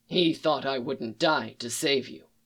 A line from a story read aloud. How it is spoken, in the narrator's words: said